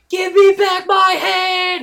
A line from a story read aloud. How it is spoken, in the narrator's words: He screams to the skies